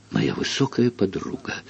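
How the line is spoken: Sigh. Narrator (Russian): вздохнул

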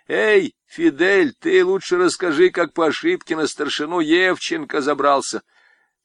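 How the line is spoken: Shouted amid laughter. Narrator (Russian): Я бы даже крикнул под общий смех

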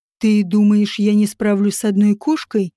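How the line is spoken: Hissed. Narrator (Russian): прошипел он

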